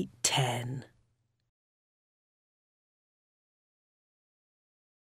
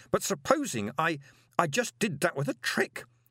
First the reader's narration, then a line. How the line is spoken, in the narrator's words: said Moist desperately